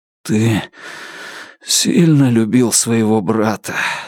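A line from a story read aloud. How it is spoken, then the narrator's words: Hoarse. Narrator (Russian): сипло сказал Алан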